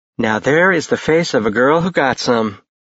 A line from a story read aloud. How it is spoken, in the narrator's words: Mia said dryly